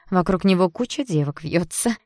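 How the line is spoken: Giggling. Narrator (Russian): хихикая добавила Рита

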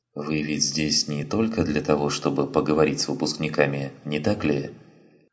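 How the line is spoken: Quiet question. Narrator (Russian): По-прежнему тихим голосом спросил Эйзенхорн

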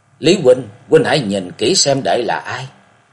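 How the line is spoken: Lowered voice. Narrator (Vietnamese): Lạc Dương Dương hạ giọng nói

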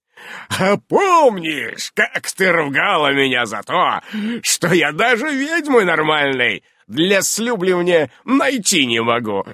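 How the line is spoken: Booming laughter. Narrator (Russian): Раскатисто расхохотался Ян

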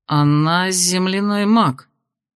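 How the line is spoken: Uncertain guess. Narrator (Russian): неуверенно предположил Кирсан

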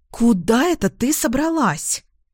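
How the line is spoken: Indignant huffing, female. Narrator (Russian): возмущенно пыхтит подруга

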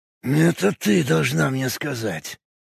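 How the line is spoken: Grunted. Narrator (Russian): буркнул Кайк

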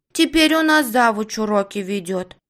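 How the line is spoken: Angry. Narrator (Russian): сердито хмурится ее подружка

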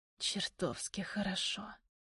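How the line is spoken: Hoarse rasp. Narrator (Russian): хрипит Галеев

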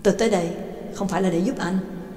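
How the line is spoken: Cold. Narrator (Vietnamese): Ba Tang chỉ lạnh lùng nói

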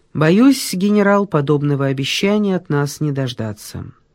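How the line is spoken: Soft. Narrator (Russian): камергер сказал мягко

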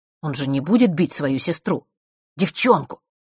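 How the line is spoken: Irritated snort. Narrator (Russian): Марк раздраженно фыркнул

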